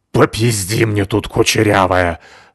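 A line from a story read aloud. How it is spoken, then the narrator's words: Angry hiss, woman. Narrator (Russian): злобно зашипела женщина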